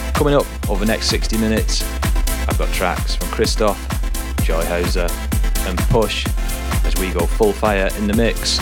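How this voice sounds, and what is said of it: Croaky, hoarse voice. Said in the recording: “Excuse a croaky voice this week, as I've got a bit of a sore throat”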